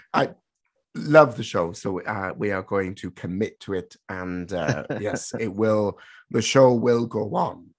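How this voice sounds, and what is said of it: Strained, worn-out voice. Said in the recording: “My voice is on the ropes”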